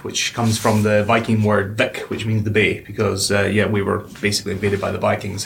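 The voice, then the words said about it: Scottish accent. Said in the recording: “your accent tells a different story ... I'm from North Highlands of Scotland”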